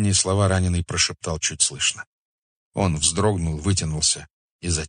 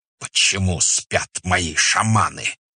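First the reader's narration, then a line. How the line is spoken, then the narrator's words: Hissing. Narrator (Russian): прошипел он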